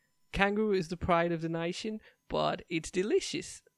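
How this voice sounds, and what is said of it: Poor attempt at Australian accent. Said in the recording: “What a bad accent.”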